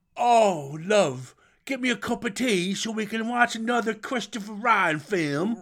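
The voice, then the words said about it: Posh English accent impression. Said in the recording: “Was that an impression of a posh English person? Because that was good.”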